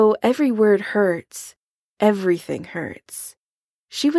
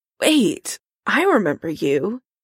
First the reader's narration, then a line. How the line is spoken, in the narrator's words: Karen croaks